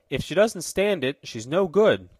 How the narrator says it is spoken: cried Tom

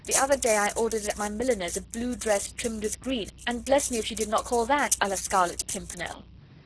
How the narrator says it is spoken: she added gaily

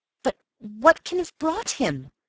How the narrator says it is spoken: I cried miserably

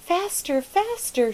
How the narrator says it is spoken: she cried

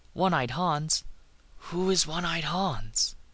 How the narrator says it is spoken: breathed

